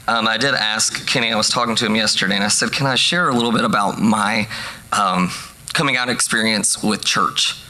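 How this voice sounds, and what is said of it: Voice lower in register than usual. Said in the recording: “my voice is a little lower in register than what I'm used to”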